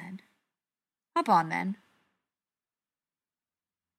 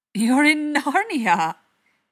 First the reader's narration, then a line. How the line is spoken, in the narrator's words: he exclaimed, the last syllable vanishing into a nay